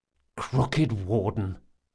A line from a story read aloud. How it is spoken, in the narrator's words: Locke muttered to himself